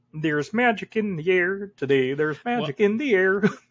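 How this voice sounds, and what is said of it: Sung Kermit the Frog impression. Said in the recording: “that is a great Kermit impression,”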